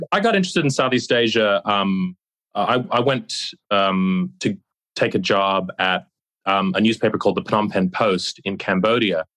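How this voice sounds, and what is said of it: Australian accent with American twang. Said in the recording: “I'm from Australia, despite my accent, which is, listeners might detect a bit of an American twang”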